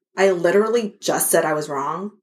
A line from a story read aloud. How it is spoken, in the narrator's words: she muttered